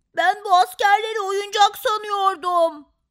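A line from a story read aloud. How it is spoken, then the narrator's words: Shouted. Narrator (Turkish): diye bağırdı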